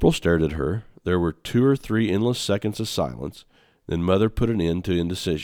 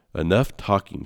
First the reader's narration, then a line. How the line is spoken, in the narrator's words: ordered